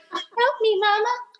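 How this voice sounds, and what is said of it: Weird little baby voice. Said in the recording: “that weird little baby voice.”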